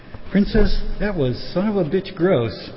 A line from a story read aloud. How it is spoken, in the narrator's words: exclaimed a Dr